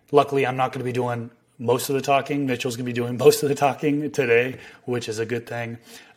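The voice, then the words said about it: Raspy, partly lost voice. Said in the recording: “my voice is a bit raspy ... I lost my voice and a little bit raspy”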